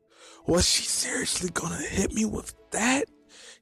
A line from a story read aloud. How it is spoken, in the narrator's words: He whispered